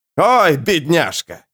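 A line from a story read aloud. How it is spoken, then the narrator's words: Shout. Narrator (Russian): крикнул сир Вомак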